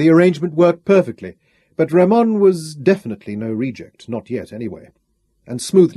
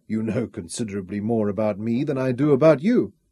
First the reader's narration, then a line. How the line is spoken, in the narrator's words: Ramon murmured